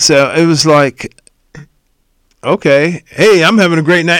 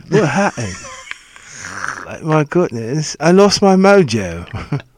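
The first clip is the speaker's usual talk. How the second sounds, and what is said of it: Put-on British accent. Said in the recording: “Always a British accent. ... you can't lose your mojo with an English accent.”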